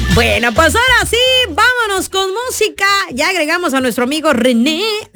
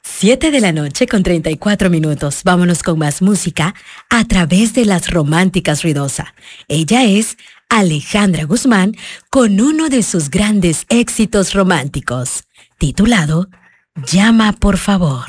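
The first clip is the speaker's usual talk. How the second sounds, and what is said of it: Romantic radio announcer voice. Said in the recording (Spanish): “Voy con voz de locutora romántica.”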